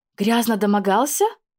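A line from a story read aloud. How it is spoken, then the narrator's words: Horrified exclamation. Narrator (Russian): воскликнула в ужасе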